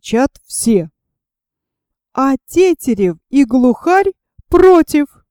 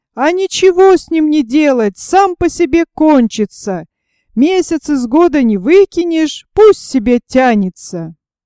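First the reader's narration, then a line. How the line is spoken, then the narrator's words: Many voices shouting. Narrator (Russian): Опять закричали все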